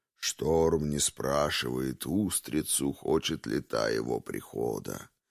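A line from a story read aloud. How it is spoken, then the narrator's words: Low, youthful-sounding voice. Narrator (Russian): говорит магистр своим низким, совсем не старческим голосом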